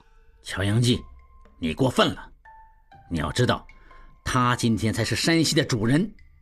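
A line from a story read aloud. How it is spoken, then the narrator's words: Low voice. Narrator (Chinese): 望柏贴近应季低声道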